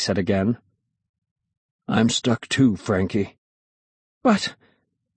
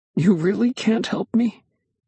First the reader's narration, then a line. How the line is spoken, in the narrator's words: I said, my voice cracking